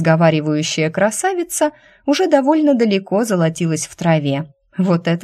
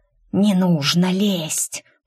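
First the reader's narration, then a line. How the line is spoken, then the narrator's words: Snake's hiss. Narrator (Russian): прошипела змея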